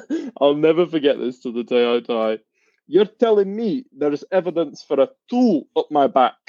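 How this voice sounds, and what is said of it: Strong Scottish accent. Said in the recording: “that strong Scottish accent”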